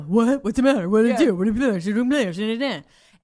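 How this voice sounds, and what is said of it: Imitates a man's voice. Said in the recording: “my guy impersonation”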